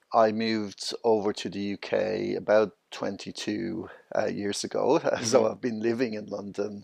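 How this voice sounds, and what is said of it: Irish accent. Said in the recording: “you are Irish, right? ... I'm originally from Dublin, Ireland.”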